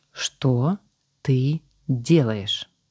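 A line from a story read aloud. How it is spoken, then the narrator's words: Slow, deliberate. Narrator (Russian): Медленно выговаривая каждое слово, сказала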